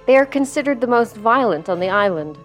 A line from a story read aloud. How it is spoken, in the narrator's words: she replied